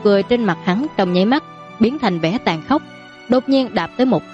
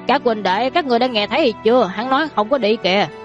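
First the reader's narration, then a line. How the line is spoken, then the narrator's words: Startled, laughing loudly. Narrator (Vietnamese): Đại hán kia giật mình, sau đó cười to nói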